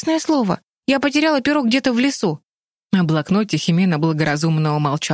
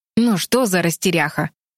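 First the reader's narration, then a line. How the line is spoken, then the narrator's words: Displeased grumble. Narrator (Russian): недовольно проворчал принц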